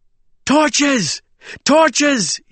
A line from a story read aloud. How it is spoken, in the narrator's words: he cried